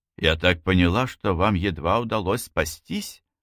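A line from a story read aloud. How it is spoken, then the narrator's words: Gentle remark. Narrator (Russian): ласково заметила Сухейла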